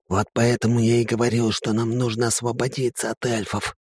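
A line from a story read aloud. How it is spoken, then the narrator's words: Whisper. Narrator (Russian): прошептал Грек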